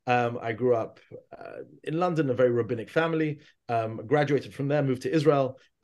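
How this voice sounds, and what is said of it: London English accent. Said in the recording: “as you can tell from my accent, from London”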